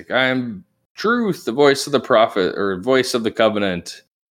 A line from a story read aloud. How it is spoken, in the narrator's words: he's kind of yelling at you guys, and he's like